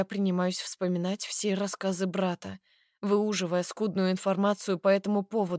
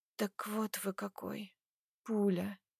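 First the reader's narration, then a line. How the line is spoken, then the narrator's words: Barely audible drawl. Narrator (Russian): Тяну едва слышно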